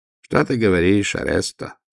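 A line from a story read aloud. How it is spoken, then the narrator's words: Sad. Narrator (Russian): сказал он печально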